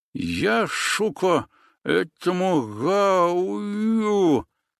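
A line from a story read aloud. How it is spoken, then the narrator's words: Lisping. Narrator (Russian): начал шепелявить он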